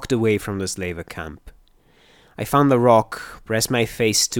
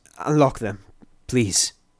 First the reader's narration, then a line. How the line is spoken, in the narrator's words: saying in a shaky voice